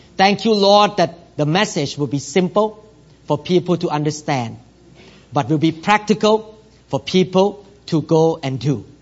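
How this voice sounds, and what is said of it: Non-native English accent. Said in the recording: “I don't speak fluently like many local pastors here ... Are you glad that your pastor have an accent? ... maybe sometimes I say wrong pronunciation”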